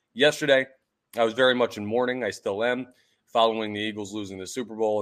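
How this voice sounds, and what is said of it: Hoarse voice. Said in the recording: “my voice sounds hoarse”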